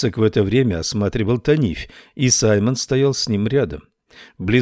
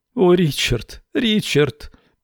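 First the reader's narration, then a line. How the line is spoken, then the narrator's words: Young woman moaning. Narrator (Russian): застонала молодая женщина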